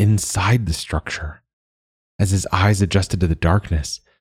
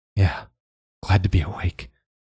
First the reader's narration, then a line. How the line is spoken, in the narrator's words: Joa mumbled